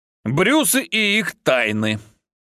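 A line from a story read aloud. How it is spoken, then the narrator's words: Irritated grumble. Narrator (Russian): буркнула раздраженно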